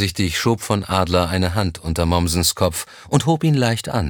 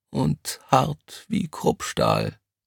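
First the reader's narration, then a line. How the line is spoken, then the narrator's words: Quiet reply. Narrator (German): kam es leise zurück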